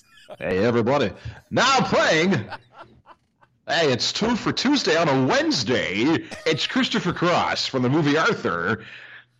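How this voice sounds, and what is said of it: Old-school radio DJ announcer voice. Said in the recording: “with your old radio voice.”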